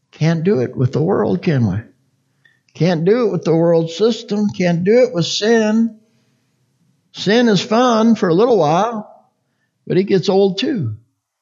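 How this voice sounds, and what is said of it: Oklahoma accent. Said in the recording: “if I preach too fast, see, I get that Okie accent in there, I'm sure”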